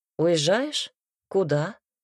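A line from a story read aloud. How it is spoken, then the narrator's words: Plain question. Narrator (Russian): спросил Себастьян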